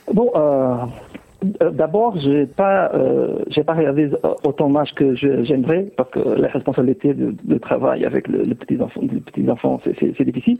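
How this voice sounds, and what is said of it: Portuguese accent speaking French. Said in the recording (French): “on entend à votre accent qu'effectivement, le Portugal doit vous être cher”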